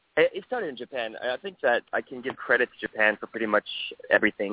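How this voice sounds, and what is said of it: Mixed international accent. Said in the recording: “I'm hearing an accent ... it's a mix of all those ... It's a very confusing accent. ... It's beautiful. It's absolutely beautiful.”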